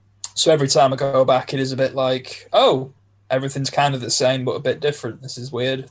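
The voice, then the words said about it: Northern English accent. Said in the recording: “I've not lived up in the North since I was 11 years old ... my accent's not gone anywhere”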